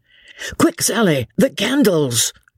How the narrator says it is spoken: shouted Jellyband

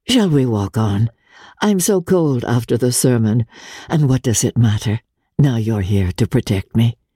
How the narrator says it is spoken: rejoined in a lighter tone

